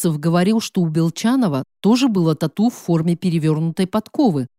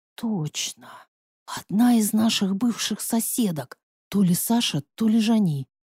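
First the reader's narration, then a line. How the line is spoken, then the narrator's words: Indignant whisper. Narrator (Russian): прошептала я, внутренне негодуя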